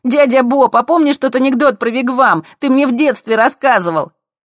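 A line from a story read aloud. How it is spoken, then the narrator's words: Shouting. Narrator (Russian): кричали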